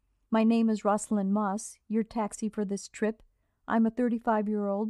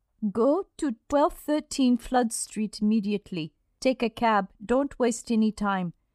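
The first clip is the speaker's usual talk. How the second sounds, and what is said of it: Thin British accent over Eastern European. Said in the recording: “British accent poured thinly over somewhere else. Eastern Europe, Germany, Russia. Immediately and flood sounded fluid and bubbling.”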